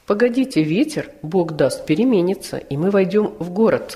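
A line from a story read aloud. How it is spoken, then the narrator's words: Plain. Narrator (Russian): сказала Жанна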